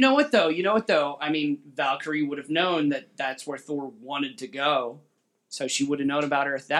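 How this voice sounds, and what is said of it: Usual voice. Nothing is said of it.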